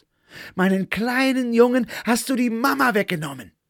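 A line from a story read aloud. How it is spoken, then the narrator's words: Several people roaring. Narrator (German): Sie begannen zu brüllen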